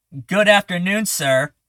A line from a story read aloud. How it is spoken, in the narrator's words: screams